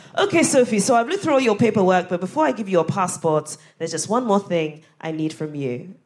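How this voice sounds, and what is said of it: Put-on Ghanaian accent. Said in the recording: “I'm about to do a Ghanaian accent”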